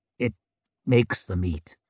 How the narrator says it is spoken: muttered Calder

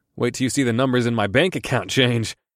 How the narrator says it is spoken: I laughed

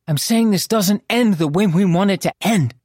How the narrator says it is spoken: she snapped

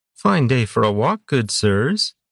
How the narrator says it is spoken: greeted them sweetly

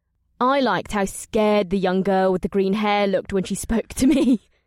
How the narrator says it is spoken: Amrila said with a throaty laugh

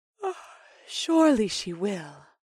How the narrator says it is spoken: the elven woman yawned

